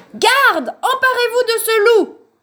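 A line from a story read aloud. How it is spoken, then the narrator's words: Jealous king yelling. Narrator (French): hurla le roi jaloux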